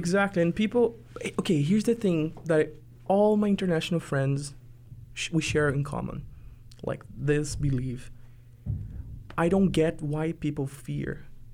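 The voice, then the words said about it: Foreign Brazilian accent. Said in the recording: “I don't live in Brazil anymore ... because I'm a foreigner, I have an accent”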